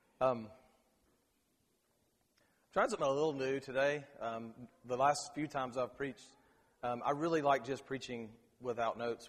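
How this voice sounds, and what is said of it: Strained, worn-out voice. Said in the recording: “I apologize for my voice. I coached 2 basketball games yesterday ... my voice is not in good shape”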